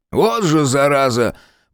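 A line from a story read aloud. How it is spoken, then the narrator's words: Wheezy drunk male voice. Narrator (Russian): просипел сзади мужской голос, полный пьяной самоуверенности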